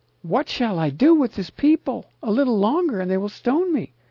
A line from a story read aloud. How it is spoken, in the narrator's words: Moses cried out to Jehovah, saying